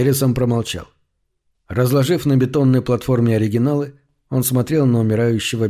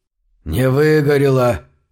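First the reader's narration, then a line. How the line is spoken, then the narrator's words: Hoarse rasp. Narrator (Russian): прохрипел Унтермир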